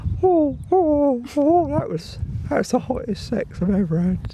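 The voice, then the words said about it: Funny put-on female character voice. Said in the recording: “In that voice? ... she's got a funny voice.”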